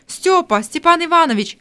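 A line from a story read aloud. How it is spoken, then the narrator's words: Exclamation. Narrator (Russian): воскликнул Захар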